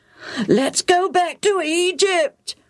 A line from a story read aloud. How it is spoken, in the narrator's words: the crowds wailed